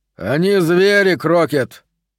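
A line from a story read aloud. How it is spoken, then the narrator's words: Loud, for all to hear. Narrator (Russian): Уокер говорил громко, чтобы слышали все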